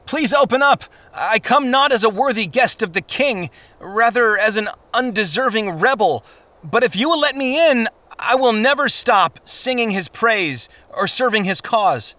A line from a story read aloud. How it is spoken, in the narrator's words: Christian called out